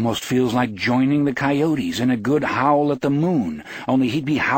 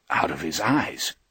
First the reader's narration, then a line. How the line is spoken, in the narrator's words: Johnny whispers, fascinated and horrified and a little awed